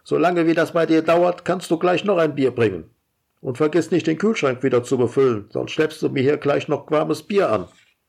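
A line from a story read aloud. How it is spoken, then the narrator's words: Calling after someone. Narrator (German): ruft er ihr nach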